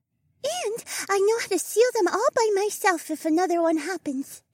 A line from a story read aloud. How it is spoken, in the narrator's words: Kiona said with a twinge of pride in her high voice